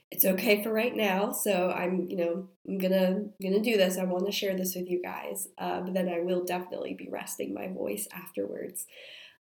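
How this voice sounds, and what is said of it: Congested, slightly hoarse voice. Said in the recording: “maybe sound a little bit off, I have a cold. It's a really gross cold, like lots of drainage, stuffed nose, congestion ... I started to lose my voice this morning.”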